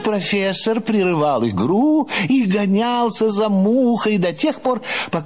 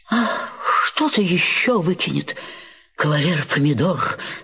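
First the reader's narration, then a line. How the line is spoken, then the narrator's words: Sad, worried question. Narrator (Russian): спрашивал профессор Груша печально и озабоченно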